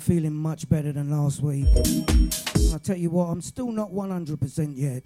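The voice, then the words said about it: Deep, under-the-weather voice. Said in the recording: “Tell by my voice. ... Nice and deep.”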